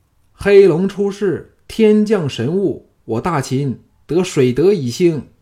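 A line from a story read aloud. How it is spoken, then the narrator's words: Many voices shouting hoarsely. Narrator (Chinese): 项少龙等一起喊破喉咙的叫道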